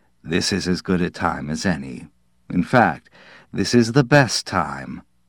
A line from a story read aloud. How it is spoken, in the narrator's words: Perched grimly on the arm of the couch, Cortland said